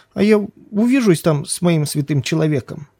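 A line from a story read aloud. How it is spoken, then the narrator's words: Whimpering. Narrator (Russian): захныкал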